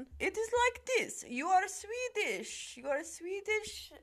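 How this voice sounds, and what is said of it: Imperfect put-on Swedish accent, German-sounding. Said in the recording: “the Swedish bro accent ... That sounds German. ... I haven't perfected my Russian Swedish racist accent.”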